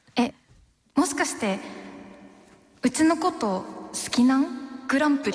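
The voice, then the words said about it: Attempted Hakata dialect. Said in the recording (Japanese): “これをさ、博多弁で言うぞ”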